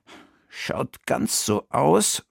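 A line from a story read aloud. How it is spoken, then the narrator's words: Murmuring. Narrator (German): murmelte Bertha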